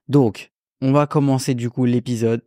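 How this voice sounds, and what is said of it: Put-on Belgian or Monaco accent. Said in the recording (French): “accent belge un peu là ... un accent de Monaco”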